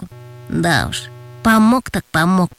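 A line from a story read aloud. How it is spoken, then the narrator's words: Sighing. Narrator (Russian): вздохнул Антон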